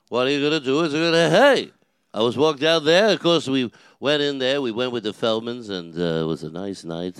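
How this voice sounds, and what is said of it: Not-too-good Regis Philbin impression. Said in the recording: “I do the voice ... I do impersonations of Regis, but it's not too good”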